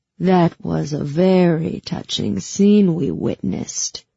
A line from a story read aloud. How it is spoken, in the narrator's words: he sneered